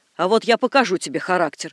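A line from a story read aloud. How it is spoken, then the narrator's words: Angry threat. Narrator (Russian): погрозила ему жена, сердито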